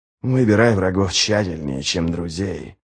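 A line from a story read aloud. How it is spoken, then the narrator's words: Muttered. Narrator (Russian): бормотал ничто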